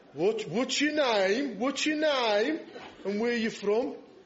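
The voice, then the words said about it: Failed impression sounding Brummie. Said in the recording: “I was trying to do a Scylla Black impression, but it just came out like Brummy.”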